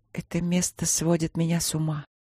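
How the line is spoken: Quiet. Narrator (Russian): проговорила она тихо

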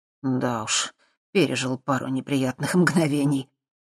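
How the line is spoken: Sighing. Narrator (Russian): вздохнул Дэн

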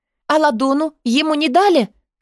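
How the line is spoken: Frantic shouting. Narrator (Russian): кричала я, не помня себя

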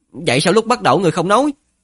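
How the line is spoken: Sudden angry shout. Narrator (Vietnamese): Ngữ khí của Ninh Khuyết rõ ràng có chút không tốt, chợt đổi giọng giận dữ hét

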